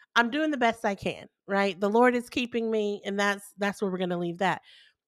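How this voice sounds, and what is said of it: Congested, nasal voice. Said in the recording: “you may be able to hear it in my voice. I'm a little more nasally... I'm a touch more nasally... I am dealing with some congestion. I got the flu”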